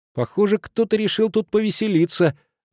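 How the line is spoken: Excited, impatient puppy. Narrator (Russian): заметил щенок взволнованно и сгорает нетерпение, поскольку не мог дождаться, когда, наконец, учитель чем-нибудь его озадачит

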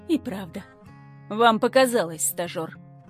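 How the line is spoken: Grumbled. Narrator (Russian): Буркнула я

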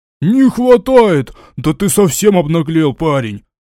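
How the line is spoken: Indignant yell. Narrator (Russian): Возмущенно завопил Жид

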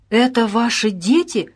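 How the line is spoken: Astonished exclamation. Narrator (Russian): изумленно воскликнул Федотов

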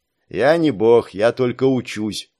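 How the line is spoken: Grumbling. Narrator (Russian): продолжал ворчать Саш

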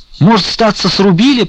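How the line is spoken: Squeaky worker voice. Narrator (Russian): пропищал работник

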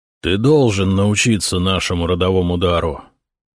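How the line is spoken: Tired. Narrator (Russian): устало сказал его отец

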